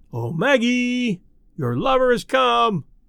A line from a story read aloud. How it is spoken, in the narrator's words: Some wag in the bleachers yelled into the silence